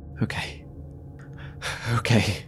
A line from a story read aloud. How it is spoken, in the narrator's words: I breathed to myself shakily